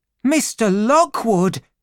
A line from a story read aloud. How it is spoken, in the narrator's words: cried